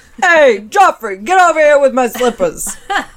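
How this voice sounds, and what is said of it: Put-on New York accent. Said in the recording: “Yeah, that's a New Yorker ... Accent.”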